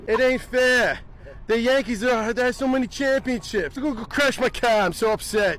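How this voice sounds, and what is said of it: Impression of a Red Sox fan. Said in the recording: “your best impersonation of a Red Sox fan”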